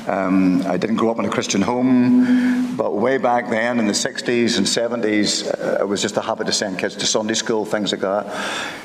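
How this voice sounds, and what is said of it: Ballymena Northern Irish accent. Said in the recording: “I grew up around Ballymena, as you probably can tell from my accent.”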